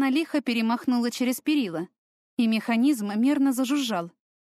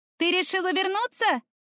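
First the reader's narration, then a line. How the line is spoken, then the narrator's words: Shout from below. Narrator (Russian): крикнула откуда-то снизу Таяна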